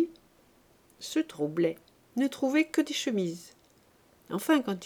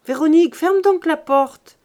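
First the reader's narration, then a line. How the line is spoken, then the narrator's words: Shouted. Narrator (French): cria-t-elle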